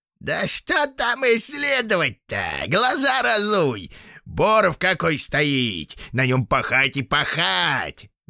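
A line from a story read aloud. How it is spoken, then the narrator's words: Squeaky voice. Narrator (Russian): запищал невидимый гад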